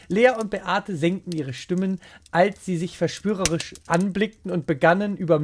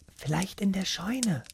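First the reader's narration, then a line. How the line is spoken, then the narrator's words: Cautious whisper. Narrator (German): flüsterte vorsichtig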